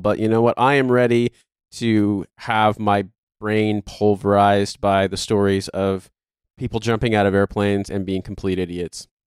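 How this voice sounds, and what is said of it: Voice sounds weird and unwell. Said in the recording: “I sound weird ... I am a little bit unwell”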